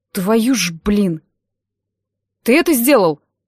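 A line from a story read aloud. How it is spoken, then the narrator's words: Bark in the face. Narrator (Russian): рявкнул прямо в лицо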